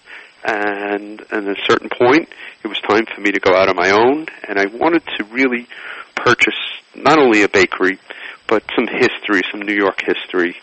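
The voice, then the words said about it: New York accent. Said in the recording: “I am a real New Yorker, and you could probably tell from my accent.”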